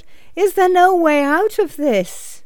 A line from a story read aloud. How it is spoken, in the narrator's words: cried out